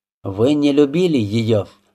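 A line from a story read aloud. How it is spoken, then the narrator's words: Plain. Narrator (Russian): сказал Рябинин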